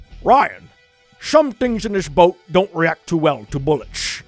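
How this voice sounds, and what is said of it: Imitates a Scottish-accented voice. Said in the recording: “my Scottish accent? You got to go to the Sean Connery”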